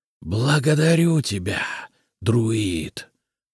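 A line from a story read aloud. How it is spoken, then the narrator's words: Hissing. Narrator (Russian): прошипел Полоз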